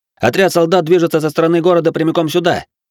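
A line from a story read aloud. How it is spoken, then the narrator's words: Loud attention-grabbing shout. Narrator (Russian): Бенджиро громко выкрикнул, привлекая внимание к себе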